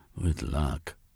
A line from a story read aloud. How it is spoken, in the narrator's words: Jeremy mumbled under his breath